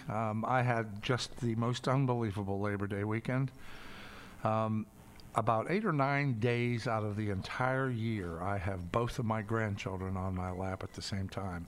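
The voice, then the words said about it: Slightly raspy voice. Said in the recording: “My voice sounds a little raspy.”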